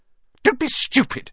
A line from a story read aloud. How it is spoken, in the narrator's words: snapped Aunt Petunia